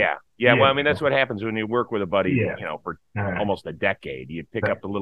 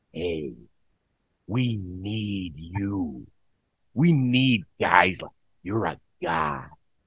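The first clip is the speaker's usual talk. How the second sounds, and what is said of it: Impression of a friend's voice. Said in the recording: “pretty good impression”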